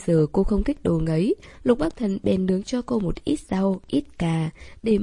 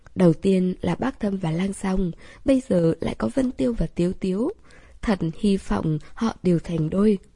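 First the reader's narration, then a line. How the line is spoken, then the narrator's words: Giggling, sincere. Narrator (Vietnamese): nhìn cặp đôi đối diện cười khúc khích mãi, chân thành nói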